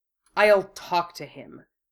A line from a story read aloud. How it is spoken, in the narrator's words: Wu Fei snapped